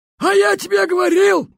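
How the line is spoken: Yelling while running. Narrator (Russian): Вопил бобер, бегущий следом

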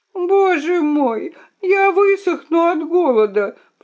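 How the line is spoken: Moaning princess. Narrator (Russian): простонала королевна

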